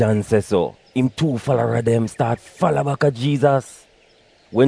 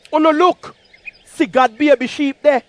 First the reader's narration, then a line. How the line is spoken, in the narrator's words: John see him and shout out